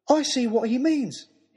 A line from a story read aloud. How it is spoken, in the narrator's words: he shouted